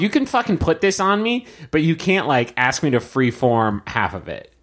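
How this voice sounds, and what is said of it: Usual voice. Nothing is said of it.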